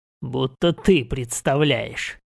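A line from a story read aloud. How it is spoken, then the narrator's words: Snorting. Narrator (Russian): хмыкнул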